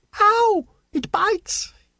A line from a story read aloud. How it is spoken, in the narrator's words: he shouted